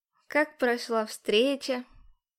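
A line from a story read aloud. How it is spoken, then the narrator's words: Snide drawl. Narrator (Russian): Тяну ехидно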